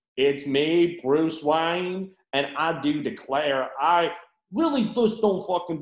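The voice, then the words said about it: Exaggerated put-on American accent. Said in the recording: “what American accent Robert Pattinson does”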